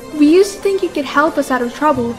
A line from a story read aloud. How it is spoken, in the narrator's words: said another idolater